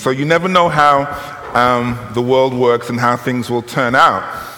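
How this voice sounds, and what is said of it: British English accent. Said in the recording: “you will tell from my accent, ... that I'm from the United Kingdom, Great Britain”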